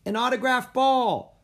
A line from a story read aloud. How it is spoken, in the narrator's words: another kid yelled